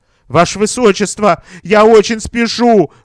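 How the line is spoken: Pleading. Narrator (Russian): взмолился он

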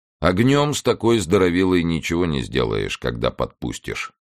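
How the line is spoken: Plain. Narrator (Russian): сказал бескаец

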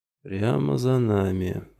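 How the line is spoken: Purring. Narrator (Russian): промурлыкал Кауфман

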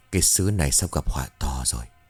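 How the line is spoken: Sighing. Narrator (Vietnamese): ông Cống thở dài

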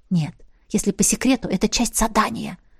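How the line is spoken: Whisper. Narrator (Russian): шепнула я ей

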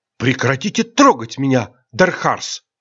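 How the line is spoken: Indignant whisper. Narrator (Russian): возмущенно прошептала в ответ Айрин

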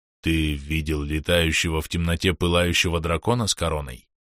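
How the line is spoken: Grating dead voice. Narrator (Russian): скрижещущим мертвым голосом

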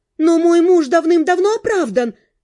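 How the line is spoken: Exclaiming. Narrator (Russian): воскликнула

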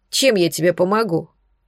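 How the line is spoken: Grumbling snap. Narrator (Russian): ворчливо огрызнулась женщина

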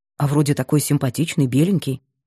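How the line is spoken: Muttered. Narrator (Russian): пробормотал Кирилл

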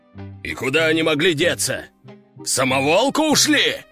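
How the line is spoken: Gruff growl. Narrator (Russian): рыкнул генерал

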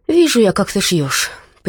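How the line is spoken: Mother's knowing grumble. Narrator (Russian): понимающе проворчала мама

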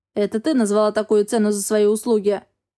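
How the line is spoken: Growl. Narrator (Russian): рыкнул Астел

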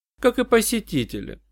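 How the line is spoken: Dry remark. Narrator (Russian): сухо заметила Джанна

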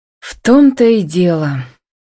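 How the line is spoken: Sad sigh. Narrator (Russian): грустно вздохнула Анна

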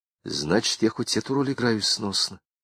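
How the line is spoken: Soft voice, smiling. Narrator (Russian): Она медленно улыбнулась, сказала негромко

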